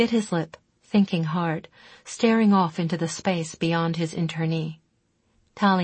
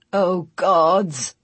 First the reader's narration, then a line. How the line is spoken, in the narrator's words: he groaned